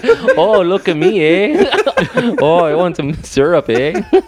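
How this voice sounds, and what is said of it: Imitated Canadian accent. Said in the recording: “I'm going to do an impression of a Canadian.”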